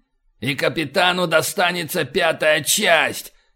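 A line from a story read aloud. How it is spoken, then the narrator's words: Yelled. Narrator (Russian): заорал утконос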